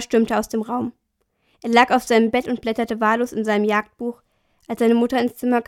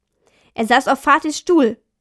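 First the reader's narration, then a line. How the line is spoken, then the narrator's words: Angry. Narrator (German): sagte Thomas zornig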